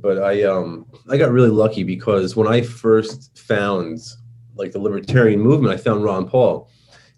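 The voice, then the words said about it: New York accent. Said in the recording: “I speak with my New York accent”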